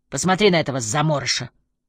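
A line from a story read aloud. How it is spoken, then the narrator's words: Deep bass voice. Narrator (Russian): пробасил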